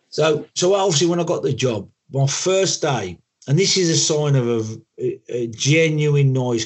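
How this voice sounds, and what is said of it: Black Country English accent. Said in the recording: “I'm black country through and through. You probably know my accent”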